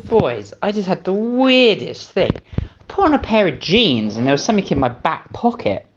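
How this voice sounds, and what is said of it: British accent. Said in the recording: “they're British.”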